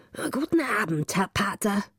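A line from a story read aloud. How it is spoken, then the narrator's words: Old woman calling. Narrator (German): Die Alte rief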